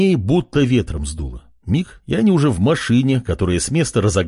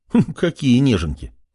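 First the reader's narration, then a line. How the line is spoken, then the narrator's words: Laughing chuckle. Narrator (Russian): хохотнул парень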